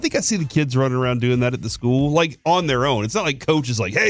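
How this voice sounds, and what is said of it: Usual voice. Nothing is said of it.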